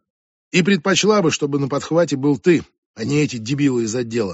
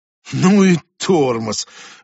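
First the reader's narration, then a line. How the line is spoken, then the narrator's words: Exhaled in unison. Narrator (Russian): выдохнули мы с Конви в унисон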